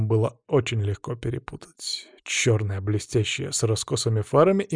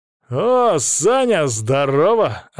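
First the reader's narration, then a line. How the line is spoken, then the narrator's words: Ringing call. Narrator (Russian): окликнул один из них звонким голосом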